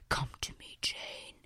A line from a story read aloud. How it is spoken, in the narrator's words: whispered